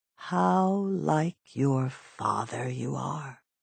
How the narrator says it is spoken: she said slowly

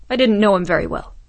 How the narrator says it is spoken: said Jaeger, his voice turning sharp

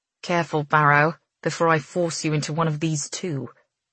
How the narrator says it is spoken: she grumbles

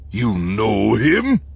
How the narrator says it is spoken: Hooga asked, his voice suddenly heavy with suspicion

